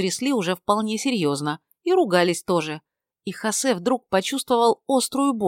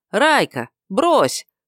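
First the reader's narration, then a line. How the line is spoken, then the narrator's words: Village elder shouting from afar. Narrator (Russian): крикнул с безопасного расстояния староста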